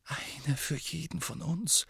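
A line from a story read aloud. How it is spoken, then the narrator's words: Horrified whisper. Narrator (German): flüsterte Hermine entsetzt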